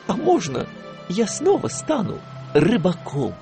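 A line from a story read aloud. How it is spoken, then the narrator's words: Timid, after a pause. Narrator (Russian): Гуфи помолчал и робко сказал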